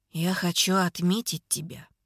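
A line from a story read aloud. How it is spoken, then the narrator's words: Quiet voice. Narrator (Russian): говорит он тихим голосом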